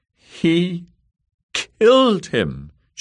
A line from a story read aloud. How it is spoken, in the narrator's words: she said in a quavery voice